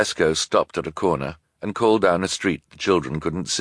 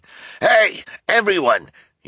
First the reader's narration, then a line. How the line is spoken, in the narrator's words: shouted